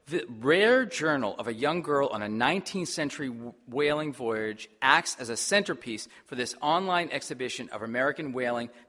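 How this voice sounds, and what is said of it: Massachusetts accent. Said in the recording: “Massachusetts, my home state. If you didn't know from the accent, it is.”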